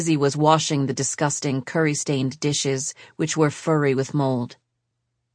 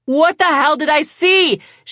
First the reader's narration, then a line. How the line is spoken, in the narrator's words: She yelled